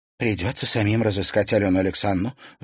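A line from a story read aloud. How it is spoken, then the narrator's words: Sighing. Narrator (Russian): вздохнула Карина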